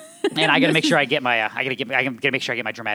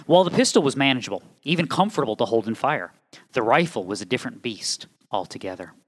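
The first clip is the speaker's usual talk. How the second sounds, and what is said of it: Dramatic narration voice. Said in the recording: “dramatic voice”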